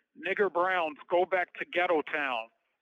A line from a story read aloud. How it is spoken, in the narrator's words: The white kids shouting out